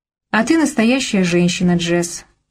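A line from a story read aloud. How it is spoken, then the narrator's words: Calm. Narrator (Russian): сказал это спокойно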